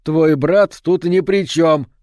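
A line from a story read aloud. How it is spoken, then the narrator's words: Shouted after. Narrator (Russian): крикнул он ей вслед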